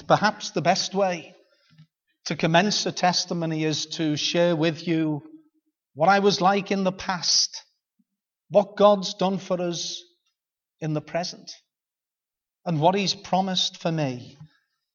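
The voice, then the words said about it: Liverpool accent. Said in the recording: “You'll know by this accent that I might be an elder in the Ballymoney congregation, but I'm initially, as our brother says, from the city of Liverpool.”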